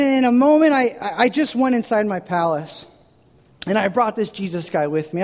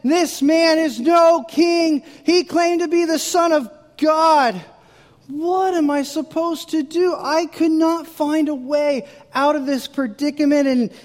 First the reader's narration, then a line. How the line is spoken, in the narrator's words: They cried out again